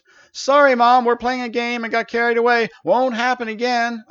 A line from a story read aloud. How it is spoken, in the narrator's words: yelled back in the most cheerful voice I could muster